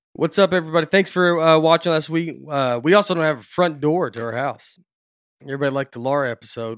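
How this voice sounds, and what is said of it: Slightly off, under-the-weather voice. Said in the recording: “My voice is just a little whack.”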